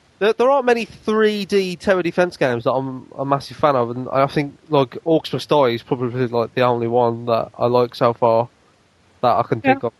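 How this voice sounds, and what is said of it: Strained, fading hoarse voice. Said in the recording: “my voice is very very rapidly going ... I lost my voice”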